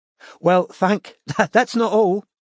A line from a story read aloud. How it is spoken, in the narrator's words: said Amanda, laughing